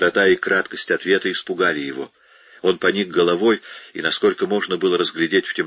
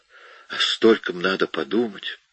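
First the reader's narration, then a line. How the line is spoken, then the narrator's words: Hoarse wheeze. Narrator (Russian): Он прохрипел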